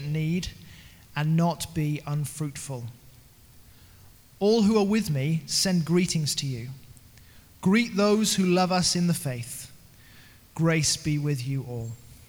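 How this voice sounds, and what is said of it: British accent. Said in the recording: “the accent”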